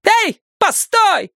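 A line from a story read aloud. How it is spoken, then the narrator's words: Worked-up woman shouting. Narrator (Russian): крикнула разошедшаяся баба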